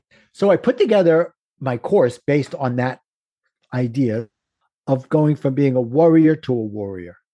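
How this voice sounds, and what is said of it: Brooklyn accent. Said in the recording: “my Brooklyn accent screws up warrior to warrior”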